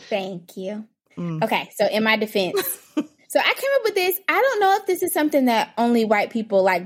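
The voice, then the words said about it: Southern American accent. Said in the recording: “I would say you have a southern accent.”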